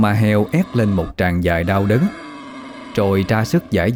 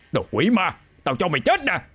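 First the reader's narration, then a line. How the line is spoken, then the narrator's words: Furious roar. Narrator (Vietnamese): ông gào lên giận dữ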